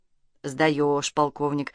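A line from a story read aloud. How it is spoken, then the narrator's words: Muttered into phone. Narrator (Russian): пробормотал в трубку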